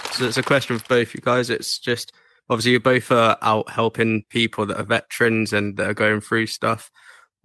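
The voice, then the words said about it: English accent. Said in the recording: “I hear the accent. ... United Kingdom, England.”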